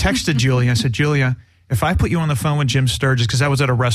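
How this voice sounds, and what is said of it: Usual voice. Nothing is said of it.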